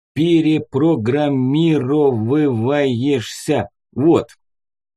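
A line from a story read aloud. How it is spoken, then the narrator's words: Slowly, syllable by syllable. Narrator (Russian): произнеся его медленно по слогам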